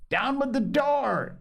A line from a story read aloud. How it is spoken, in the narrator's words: cried